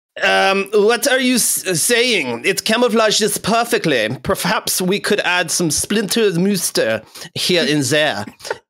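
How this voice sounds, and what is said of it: Poor put-on German accent. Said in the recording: “the caption in a German accent ... in a German voice ... my butchering of the German accent”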